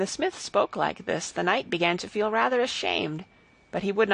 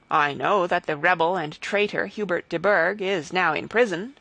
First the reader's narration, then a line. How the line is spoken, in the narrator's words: replied Henry